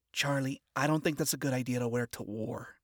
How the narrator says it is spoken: she said gently, yet firmly

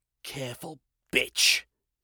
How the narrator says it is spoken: she hissed

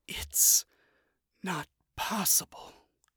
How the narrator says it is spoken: she muttered, so soft that Emily barely heard her

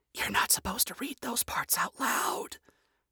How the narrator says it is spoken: Charlie whispered from behind her hand

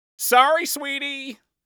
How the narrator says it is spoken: yelled over his shoulder

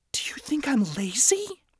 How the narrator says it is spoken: He groaned

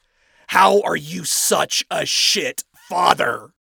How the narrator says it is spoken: Adam snapped, hissing it out to avoid yelling loud enough for Charlie to hear

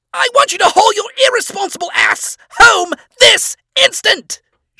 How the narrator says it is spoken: She screamed

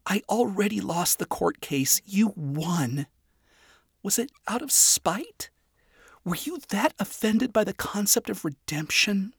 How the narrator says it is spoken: Charlie continued, her voice wavering

